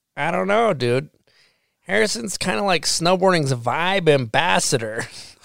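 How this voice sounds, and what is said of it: Imitates another person's voice. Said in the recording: “that was a good impression of Blake too”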